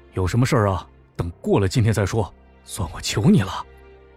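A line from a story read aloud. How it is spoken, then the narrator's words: Low, pleading. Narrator (Chinese): 黄成压低声音劝道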